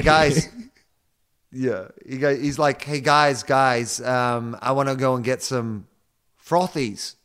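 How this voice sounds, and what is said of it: Put-on American accent. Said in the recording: “you doing an American accent sounds like Mason Cox doing an Australian accent ... That's actually pretty good.”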